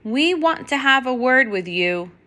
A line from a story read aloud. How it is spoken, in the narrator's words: Max shouts at the moon